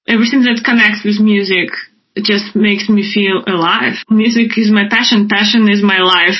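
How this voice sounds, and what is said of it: Russian accent. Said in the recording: “your little Russian accent”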